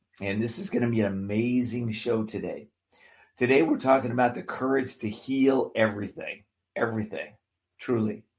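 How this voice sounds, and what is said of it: Slightly cracking voice. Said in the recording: “My voice is cracking a little bit”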